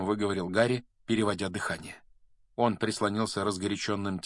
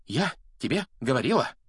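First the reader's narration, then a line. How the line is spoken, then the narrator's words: Breathless exclamation. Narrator (Russian): выдохнула Гермиона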